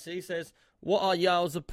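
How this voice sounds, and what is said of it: Poor attempt at the questioner's accent. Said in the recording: “it's in his accent as well, trying to do my best ... I can't do that ... I've ruined your accent”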